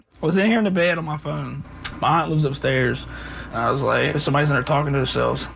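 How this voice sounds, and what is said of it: Strong, distinctive accent. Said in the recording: “fantastic accent ... just for the accent”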